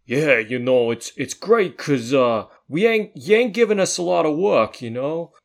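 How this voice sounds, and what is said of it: Put-on Brooklyn accent. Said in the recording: “He's got a Brooklyn accent, this guy ... I made Bill and Ted Brooklyn, and this guy's their cousin”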